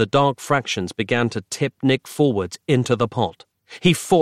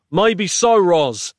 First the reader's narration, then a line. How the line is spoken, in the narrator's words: he shouted desperately over his shoulder